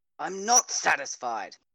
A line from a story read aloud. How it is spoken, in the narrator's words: Katja snapped